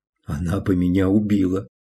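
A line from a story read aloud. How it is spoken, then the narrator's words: Whispered agreement. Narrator (Russian): шепотом согласилась Алиса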